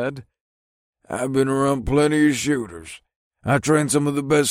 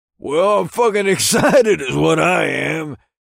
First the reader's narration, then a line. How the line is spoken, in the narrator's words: laughed